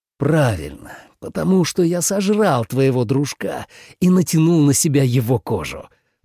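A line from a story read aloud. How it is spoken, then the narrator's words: Growled. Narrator (Russian): прорычал двойник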